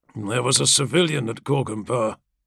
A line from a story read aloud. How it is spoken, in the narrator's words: he murmured